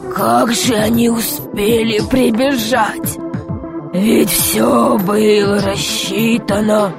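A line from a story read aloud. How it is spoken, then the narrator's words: Desperate muttering. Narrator (Russian): бормотал он в отчаянии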